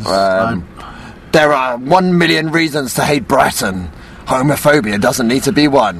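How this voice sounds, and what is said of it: Dramatic voiceover announcer voice. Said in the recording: “do the voice of the voiceover guy”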